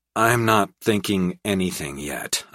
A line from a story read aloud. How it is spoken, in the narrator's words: I sighed